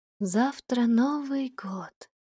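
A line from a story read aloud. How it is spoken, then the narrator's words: Quiet. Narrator (Russian): произнесла тихо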